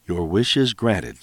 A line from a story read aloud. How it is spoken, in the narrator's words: said Zeus